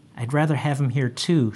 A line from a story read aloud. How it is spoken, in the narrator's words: said